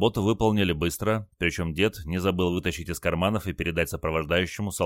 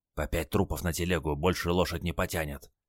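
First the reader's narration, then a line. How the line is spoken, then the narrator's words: Old man whispering. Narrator (Russian): шепнул дед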